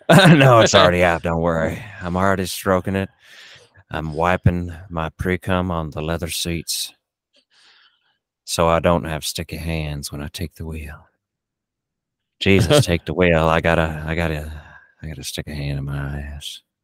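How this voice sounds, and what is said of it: Imitates another person's voice. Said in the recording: “you started off with a really good impersonation there, and then towards the end, it just kind of like it went off the rails ... it was a great Matthew McConaughey”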